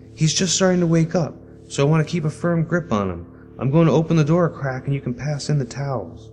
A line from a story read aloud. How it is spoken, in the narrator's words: She called out